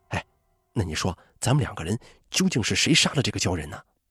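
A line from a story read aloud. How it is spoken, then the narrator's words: Soft question. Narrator (Chinese): 熊玉阳突然想起之前二人的赌约，于是他轻声问梁武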